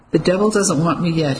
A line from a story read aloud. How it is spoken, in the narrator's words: he said, giving a nervous chuckle